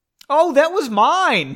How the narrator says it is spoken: Pauline said excitedly

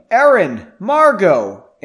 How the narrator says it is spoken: The figure started yelling

